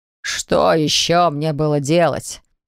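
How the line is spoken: Father's displeased snort. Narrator (Russian): недовольно хмыкнул отец

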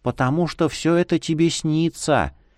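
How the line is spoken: Barely audible reply. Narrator (Russian): еле слышно отозвалась она

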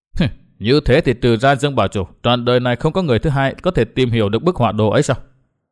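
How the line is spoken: Cold, sneering. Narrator (Vietnamese): Nguyên Bình cười nhạt

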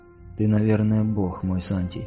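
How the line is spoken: Quiet. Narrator (Russian): тихо сказала Ангнани

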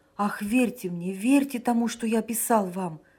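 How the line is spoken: Exclaiming. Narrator (Russian): воскликнул Санин

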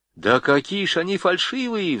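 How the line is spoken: Pleading. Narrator (Russian): взмолился Пахомов

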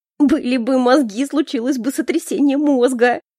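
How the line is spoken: Through laughter. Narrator (Russian): Сквозь смех выдала эта стерва

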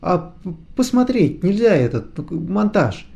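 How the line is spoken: Stammering question. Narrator (Russian): заикаясь, спросил он

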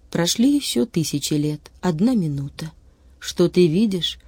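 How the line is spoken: Plain. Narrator (Russian): говорит Юнгфрау

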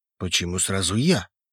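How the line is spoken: Skeptical snort. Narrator (Russian): хмыкнул

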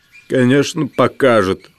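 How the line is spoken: Mouse grumbling. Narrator (Russian): буркнул мышь

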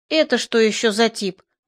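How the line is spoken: Muttered. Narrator (Russian): буркнул я

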